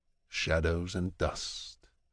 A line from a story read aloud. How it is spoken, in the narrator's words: he murmurs without irony